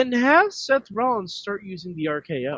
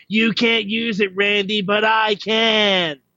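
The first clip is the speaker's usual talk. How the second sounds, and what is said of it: Imitates another person's voice. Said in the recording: “great impression... that was an interesting impression”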